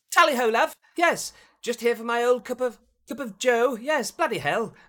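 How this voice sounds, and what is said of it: Put-on exaggerated English accent. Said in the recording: “If you just walk up with an English accent”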